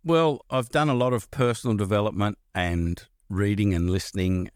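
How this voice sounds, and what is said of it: Australian accent. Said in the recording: “accent ... which country ... Australia”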